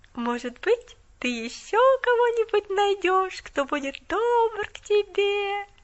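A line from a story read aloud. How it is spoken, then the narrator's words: Sing-song drawl, smiling. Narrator (Russian): Нараспев протянула она с этим загадочным заявлением и сияющей улыбкой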